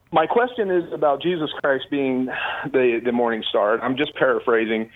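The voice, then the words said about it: Out of breath while talking. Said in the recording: “I'm walking, I'm out of breath.”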